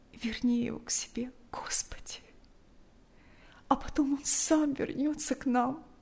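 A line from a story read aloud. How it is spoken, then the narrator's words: Tearful whisper. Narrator (Russian): шептала она, глотая слезы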